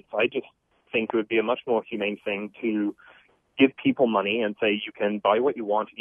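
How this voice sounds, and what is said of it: Non-American accent. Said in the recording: “as the accent might betray, I'm, you know, not originally from America”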